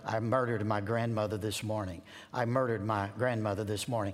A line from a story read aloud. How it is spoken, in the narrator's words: President Roosevelt muttered